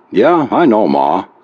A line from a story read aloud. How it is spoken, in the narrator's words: Zach said wearily